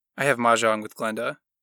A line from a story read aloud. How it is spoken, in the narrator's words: Ethel announced stiffly